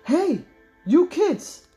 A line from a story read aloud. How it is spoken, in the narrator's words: someone shouted